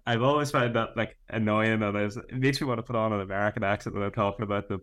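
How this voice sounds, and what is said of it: Northern Irish accent. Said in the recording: “in a Northern Irish accent,”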